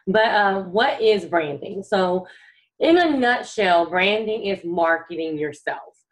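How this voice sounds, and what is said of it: Rough, sick-sounding voice. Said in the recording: “my voice is a little shot because I've been sick this week”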